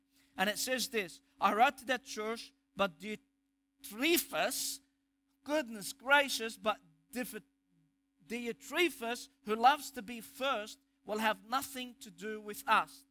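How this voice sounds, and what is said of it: Egyptian accent. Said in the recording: “my Egyptian accent”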